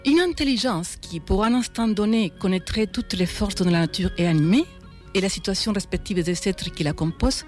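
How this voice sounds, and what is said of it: Speaks with a noticeable accent. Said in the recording (French): “dites avec mon accent, elles prennent une signification savoureusement mais involontairement absconse”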